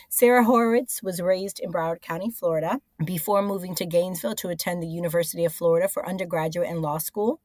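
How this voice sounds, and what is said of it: Hoarse, slightly altered voice. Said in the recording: “I have laryngitis or recovering from laryngitis, so if I sound a little different”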